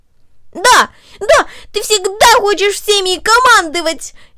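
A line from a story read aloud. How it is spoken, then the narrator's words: Furious male shout. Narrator (Russian): яростно выкрикнул он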